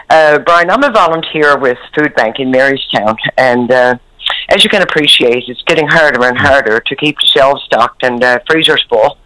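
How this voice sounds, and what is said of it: Voice affected by a cold. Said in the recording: “Excuse my voice, but I have a dirty old cold.”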